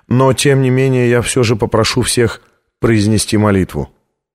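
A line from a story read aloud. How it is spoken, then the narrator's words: Even, level voice. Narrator (Russian): ровным голосом произнес камерарий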